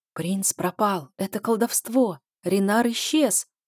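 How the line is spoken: Whispers spreading through ranks. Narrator (Russian): побежал шепот по рядам

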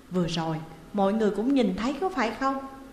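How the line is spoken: Angry question. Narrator (Vietnamese): có vẻ tức giận hỏi

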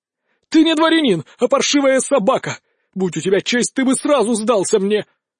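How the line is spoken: Furious shout. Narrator (Russian): окончательно выйдя из себя, Луцкий наконец закричал

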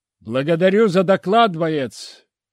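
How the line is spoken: Shouted. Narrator (Russian): крикнул я

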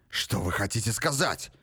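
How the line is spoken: Hoarse, agitated cry. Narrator (Russian): вскричал Грок охрипшим от волнения голосом

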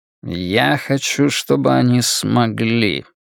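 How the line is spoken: Mumble. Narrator (Russian): пробормотал Флэг

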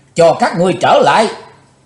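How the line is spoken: Furious roar. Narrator (Vietnamese): Chí Tôn thịnh nộ thét lớn

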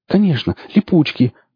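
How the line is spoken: Joyful cry. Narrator (Russian): радостно вскрикнул эльф

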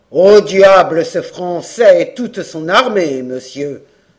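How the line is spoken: Stern veteran's exclamation. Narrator (French): s'écria le vétéran en s'armant d'un front sévère

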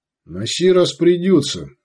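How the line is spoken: Plain. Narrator (Russian): сказал Сварог

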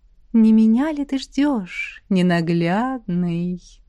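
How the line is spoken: Tender low sing-song. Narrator (Russian): Ласково пропела она грудным голосом

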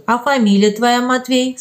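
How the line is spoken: Plain question. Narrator (Russian): спросил штатский

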